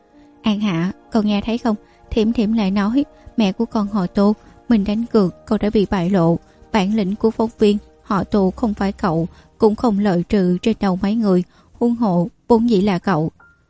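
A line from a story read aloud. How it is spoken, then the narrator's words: Laughing loudly. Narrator (Vietnamese): Giảng Mạn Hỷ cười lớn ra tiếng, nói với Tô An Hạ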